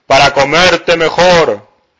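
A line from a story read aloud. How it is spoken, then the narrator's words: Wolf shouting. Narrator (Spanish): el lobo feroz gritó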